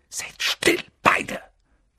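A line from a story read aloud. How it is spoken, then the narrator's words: Hissing. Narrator (German): zischte Harry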